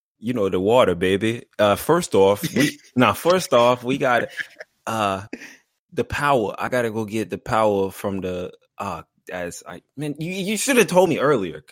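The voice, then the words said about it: Put-on New Orleans accent. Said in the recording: “give me your best New Orleans accent ... Hey, that was pretty good.”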